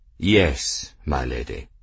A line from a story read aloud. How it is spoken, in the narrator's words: Esterbrook said gravely